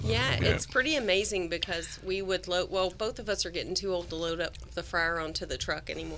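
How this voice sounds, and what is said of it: Southern American accent. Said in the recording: “you have not lost your Southern accent ... It's so beautiful.”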